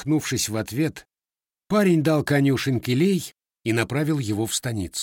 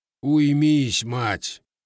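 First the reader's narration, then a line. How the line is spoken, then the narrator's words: Grumbling. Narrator (Russian): проворчал он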